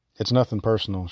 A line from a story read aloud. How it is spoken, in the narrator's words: said calmly